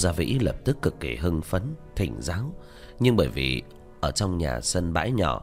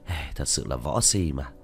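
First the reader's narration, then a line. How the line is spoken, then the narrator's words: Speechless sigh. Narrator (Vietnamese): Diệp Thiếu Dương cạn lời thở dài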